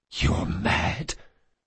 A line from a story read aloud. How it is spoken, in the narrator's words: the assassin whispered